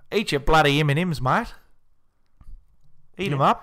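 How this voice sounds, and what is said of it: Put-on Australian accent. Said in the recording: “Eat your Australian J.K. Simmons. Put a little twist on it there for you. ... Is it offensive to do the Australian accent?”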